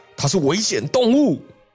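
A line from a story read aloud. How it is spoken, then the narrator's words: Roaring. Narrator (Chinese): 警察局长吼道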